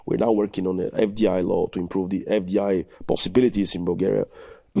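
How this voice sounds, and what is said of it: Strained, fading voice. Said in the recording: “I'm losing my voice, sorry.”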